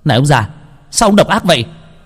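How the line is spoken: Angry. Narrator (Vietnamese): Truyền nhân của Khang biến sắc, tức giận

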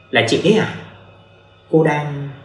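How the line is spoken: Smiling woman. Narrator (Vietnamese): Cô ta mỉm cười

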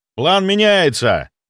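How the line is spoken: Shouting over wind. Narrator (Russian): крикнул я команде, перекрывая вой ветра

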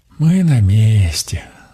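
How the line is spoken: Relieved sigh. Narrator (Russian): Донь с облегчением вздохнула

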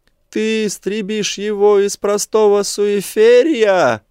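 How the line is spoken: Wailing. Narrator (Russian): взвыл Аристотель

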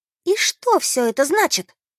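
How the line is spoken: Excited exclamation. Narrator (Russian): взволнованно воскликнула она

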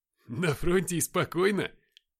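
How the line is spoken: Laughing. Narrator (Russian): посмеялся Роман

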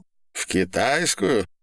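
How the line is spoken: Laughing man. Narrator (Russian): засмеялся бритоголовый француз

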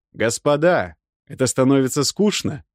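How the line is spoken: Loud. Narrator (Russian): сказал я им громко

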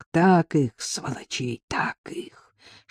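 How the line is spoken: Whispered. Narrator (Russian): шептал Павел

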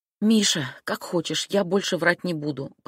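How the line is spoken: Whisper in ear. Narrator (Russian): прошептала я Мишке на ухо

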